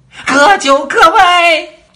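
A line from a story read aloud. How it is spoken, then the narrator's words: Queen shouting. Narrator (Chinese): 王后喊了一声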